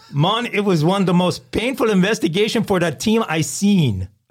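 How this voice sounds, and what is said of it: Put-on Jamaican accent. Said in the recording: “give us a Jamaican accent.”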